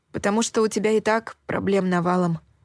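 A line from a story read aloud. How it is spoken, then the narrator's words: Muffled mutter. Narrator (Russian): пробормотала я, уткнувшись в свою тарелку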